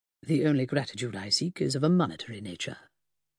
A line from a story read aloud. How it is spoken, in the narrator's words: told her so softly that he might have been making a pleasantry